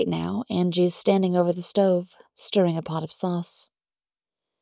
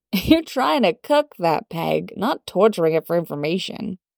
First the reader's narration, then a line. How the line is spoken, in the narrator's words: Angie laughing and saying